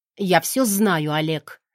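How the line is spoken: Firm voice. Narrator (Russian): твердым голосом выдаю

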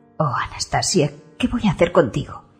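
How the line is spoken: Whispered. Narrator (Spanish): susurra

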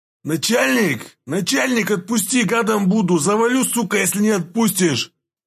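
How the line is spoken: Man yelling after coming to. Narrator (Russian): заорал пришедший в себя мужчина

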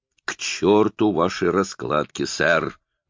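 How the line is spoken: Furious growl. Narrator (Russian): в бешенстве зарычал сэр Чарльз

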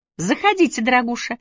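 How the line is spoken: Cheerful girlish chirp. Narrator (Russian): весело прощебетала девушка

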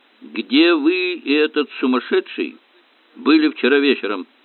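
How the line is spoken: Calm question. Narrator (Russian): спокойно поинтересовался Айшем

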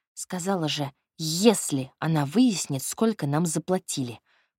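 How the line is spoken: Through gritted teeth. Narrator (Russian): процедила Надя

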